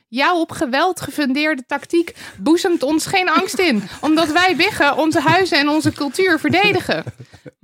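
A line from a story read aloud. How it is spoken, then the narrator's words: Piglets shouting back. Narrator (Dutch): De biggetjes schreeuwden terug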